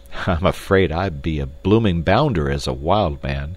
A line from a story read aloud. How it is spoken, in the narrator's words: laughed Clayton ruefully